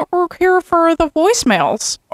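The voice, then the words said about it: Throaty impression of Mary Louise Keller. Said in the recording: “You did her voice pretty well the other day ... it's in the back of the throat ... You do that surprisingly well. It's scary.”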